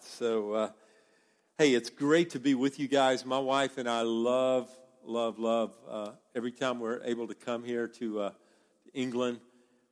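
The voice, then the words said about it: Southern American accent. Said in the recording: “my accent, the American accent from the South”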